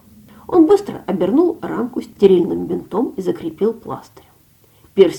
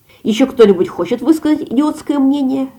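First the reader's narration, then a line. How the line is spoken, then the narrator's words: Barked. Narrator (Russian): рявкнул Тео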